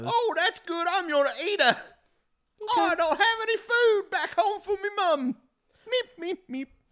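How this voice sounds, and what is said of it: Put-on London accent. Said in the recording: “putting on the London accent.”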